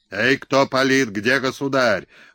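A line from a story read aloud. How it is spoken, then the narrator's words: Booming bass yell. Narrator (Russian): гулким басом орал сотник Белоносов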